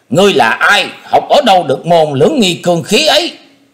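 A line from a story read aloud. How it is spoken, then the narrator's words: Loud shout. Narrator (Vietnamese): Lâm Bào quái nhân quát lớn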